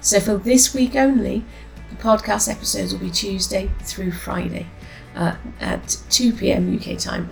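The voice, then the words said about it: Slightly altered voice from cold. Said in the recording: “my voice sounds slightly different today. I'm getting over a cold. Yesterday my voice was almost non-existent”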